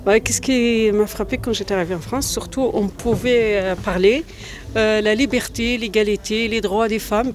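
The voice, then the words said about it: Algerian Berber accent in French. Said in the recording (French): “ce petit accent, c'est pas l'accent lyonnais, ça ? ... c'est pas l'accent lyonnais, je suis berbère, algérien ... Je suis né en Algérie, c'est pour ça que j'ai mon accent”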